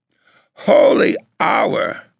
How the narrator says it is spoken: cried her mother

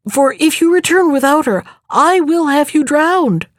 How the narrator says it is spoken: stammered he

